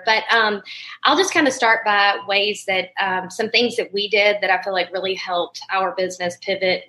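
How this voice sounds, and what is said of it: Crackly voice. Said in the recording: “my voice is a little crackly here”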